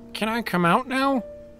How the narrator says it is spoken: Navi asked, her voice muffled

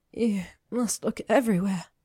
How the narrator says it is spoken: she breathed

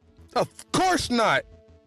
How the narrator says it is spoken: she yelled

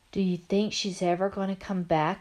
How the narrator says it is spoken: I whispered

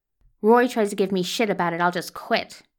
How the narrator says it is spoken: she says hotly

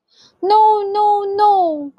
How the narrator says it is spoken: called out Mr

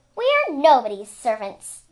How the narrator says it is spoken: Luna said indignantly

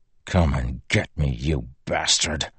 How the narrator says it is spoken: he whispered

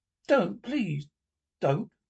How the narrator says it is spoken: begged the tin woodman

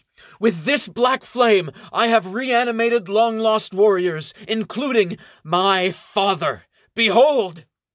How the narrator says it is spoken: she shouts

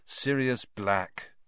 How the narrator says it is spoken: Harry said wearily

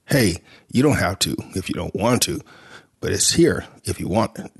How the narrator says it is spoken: Jimmy said

